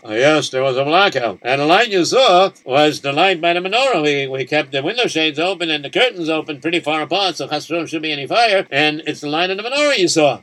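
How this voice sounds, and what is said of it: German accent. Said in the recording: “You speak with a German accent.”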